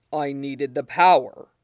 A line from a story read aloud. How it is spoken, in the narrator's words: he murmurs